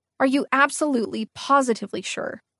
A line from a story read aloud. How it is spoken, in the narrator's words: I asked